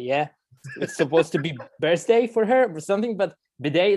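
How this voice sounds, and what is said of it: Speaks English with a foreign accent. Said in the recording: “with my accent is the same”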